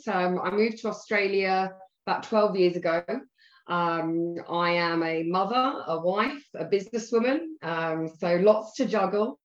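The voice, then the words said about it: British accent. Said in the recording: “I'm originally from the UK. You can probably tell from the accent.”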